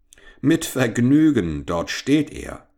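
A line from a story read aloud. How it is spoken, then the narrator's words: Barber calling, laughing. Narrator (German): rief der Barbier lachend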